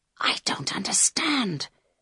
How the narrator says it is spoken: whispered Carl

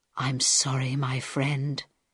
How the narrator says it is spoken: he whispered to Harold

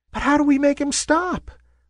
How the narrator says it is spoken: squeaked a wispy little cloud

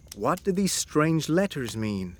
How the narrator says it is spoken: I asked

